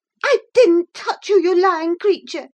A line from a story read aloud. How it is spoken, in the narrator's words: cried she, her ears red with rage